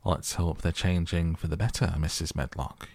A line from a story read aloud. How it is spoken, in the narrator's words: he answered